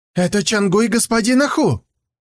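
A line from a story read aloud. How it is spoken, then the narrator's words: Exclaiming. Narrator (Russian): воскликнул он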